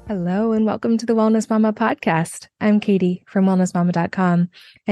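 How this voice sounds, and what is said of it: Voice still recovering, slightly strained. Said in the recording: “please excuse my voice is still a little bit recovering today”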